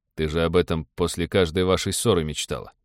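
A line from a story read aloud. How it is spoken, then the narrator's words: Smirking snort. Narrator (Russian): хмыкнул пилот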